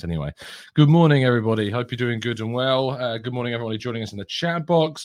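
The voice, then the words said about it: Slightly out of breath. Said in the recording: “I'm slightly out of breath.”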